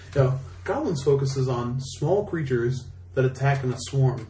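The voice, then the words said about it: Impression of Rich Hagon, British accent. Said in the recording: “in this adorable British accent”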